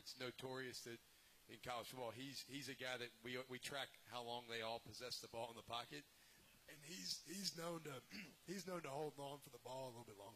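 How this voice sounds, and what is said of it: Hoarse, nearly lost voice. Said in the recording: “lost my voice”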